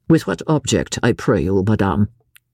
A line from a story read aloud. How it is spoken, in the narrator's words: he asked coldly